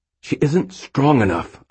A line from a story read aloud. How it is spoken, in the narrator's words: I snapped